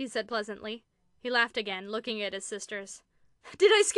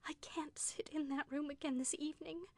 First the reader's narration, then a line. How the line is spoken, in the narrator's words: she whispered to Carolyn